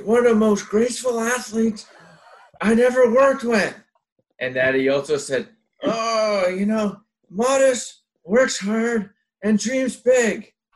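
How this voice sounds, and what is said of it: Imitates another person's voice. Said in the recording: “my Albert impression ... Wow, that was amazing ... Should just keep talking like Albert ... in my normal voice”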